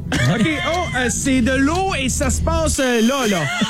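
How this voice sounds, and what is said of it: Put-on Saguenay Quebec accent. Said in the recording (French): “J'ai voulu faire l'accent du Saguenay.”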